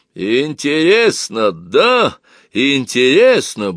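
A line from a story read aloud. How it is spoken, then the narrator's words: Deep barking shout. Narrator (Russian): басом рявкнула Зинаида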